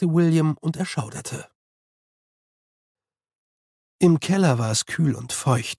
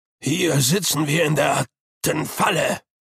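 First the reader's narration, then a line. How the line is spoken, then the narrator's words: Groaning. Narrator (German): stöhnte Herr Tulpe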